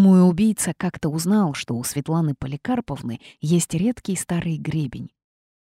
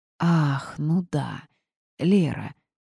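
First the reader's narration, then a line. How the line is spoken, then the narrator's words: Drawling. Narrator (Russian): протянула Рита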